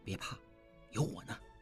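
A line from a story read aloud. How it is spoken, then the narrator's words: Low voice. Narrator (Chinese): 应季低声说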